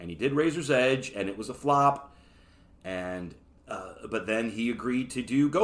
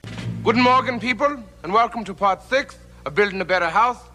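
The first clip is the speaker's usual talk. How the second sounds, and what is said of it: Put-on German accent. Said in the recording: “play the role as in this German accent ... he was doing that accent”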